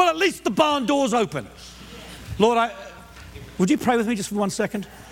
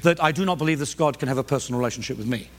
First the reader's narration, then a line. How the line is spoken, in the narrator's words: he says quickly